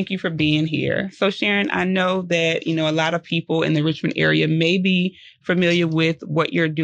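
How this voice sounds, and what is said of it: Usual voice. Nothing is said of it.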